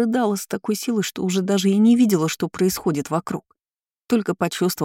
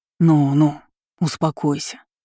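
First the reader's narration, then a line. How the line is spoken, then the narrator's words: Soft whisper in ear. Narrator (Russian): мягко прошептал мне на ухо Демьян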